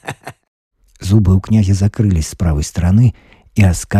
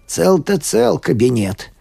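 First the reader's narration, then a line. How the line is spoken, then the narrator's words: Muttered. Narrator (Russian): бормотал Иона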